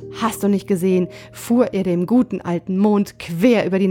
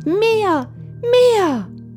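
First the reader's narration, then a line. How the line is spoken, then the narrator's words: Small child shouting. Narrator (German): schrie der kleine Hävelmann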